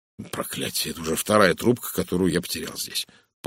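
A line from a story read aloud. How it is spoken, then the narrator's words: Muttered. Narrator (Russian): пробормотал он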